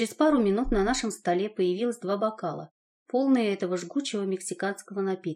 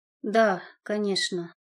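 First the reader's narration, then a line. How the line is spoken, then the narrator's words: Sighed. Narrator (Russian): вздохнул мой спаситель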